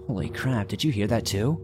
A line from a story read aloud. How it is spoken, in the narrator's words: Alex and I quietly said to each other